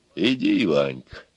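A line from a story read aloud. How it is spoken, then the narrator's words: Quiet. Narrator (Russian): тихо сказал Илья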